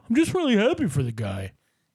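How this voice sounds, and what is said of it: Mocking impression of a caller. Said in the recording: “this is my impression of you”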